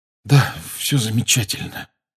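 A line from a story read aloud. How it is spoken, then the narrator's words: Hoarse pained mutter. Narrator (Russian): хрипло пробормотал и сглотнул, превозмогая боль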